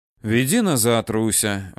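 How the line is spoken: Sighing. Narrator (Russian): вздохнул Данияр

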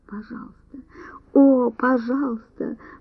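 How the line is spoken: Moaning. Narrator (Russian): простонала

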